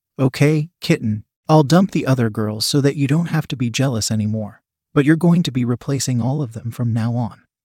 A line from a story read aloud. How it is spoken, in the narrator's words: he said in a calm authoritative tone